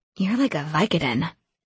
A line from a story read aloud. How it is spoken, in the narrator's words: I mumbled in exhausted pain